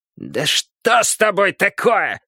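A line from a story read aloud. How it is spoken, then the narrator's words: Loud bark. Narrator (Russian): гаркнул в ответ Шрамодух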